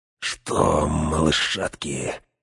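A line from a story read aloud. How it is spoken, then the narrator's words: Insinuating whisper. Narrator (Russian): вкрадчиво прошептал Грышнак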